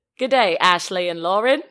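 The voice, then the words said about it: Terrible put-on Australian accent. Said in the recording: “my terrible accent”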